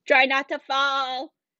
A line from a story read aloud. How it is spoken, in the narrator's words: the boy next to him yelled